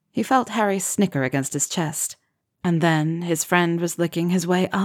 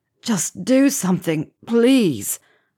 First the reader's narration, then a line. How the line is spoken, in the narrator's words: Ron groaned